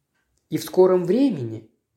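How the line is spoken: Soft. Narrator (Russian): мягко закончил он

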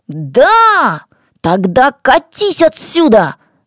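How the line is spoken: Shout. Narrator (Russian): закричал Аламазон

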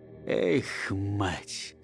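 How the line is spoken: Very quiet. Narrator (Russian): совсем тихо сказал солдат

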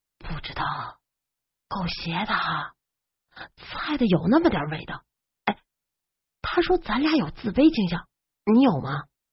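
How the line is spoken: Asked. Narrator (Chinese): 豆包问

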